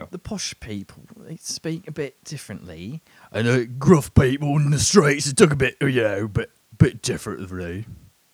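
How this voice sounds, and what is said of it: Put-on posh and gruff British accents. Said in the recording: “UK British accents ... it doesn't stay in one region. It'll meander. ... It'll go high status, low status ... Very solid on both ... Not my best work”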